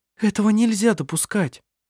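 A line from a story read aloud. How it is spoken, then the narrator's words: Frightened exclamation. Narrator (Russian): испуганно воскликнула Сири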